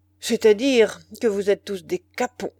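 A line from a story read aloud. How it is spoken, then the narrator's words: Grumbling, humiliated man. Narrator (French): grommela le journaliste giflé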